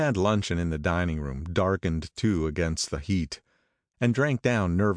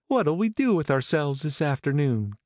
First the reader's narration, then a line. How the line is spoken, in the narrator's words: cried Daisy